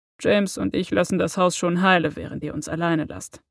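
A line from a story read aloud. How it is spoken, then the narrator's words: Dry promise. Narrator (German): versprach er trocken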